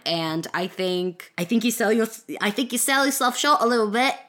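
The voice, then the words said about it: Slips into a put-on accent. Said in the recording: “I know the accent just kind of came.”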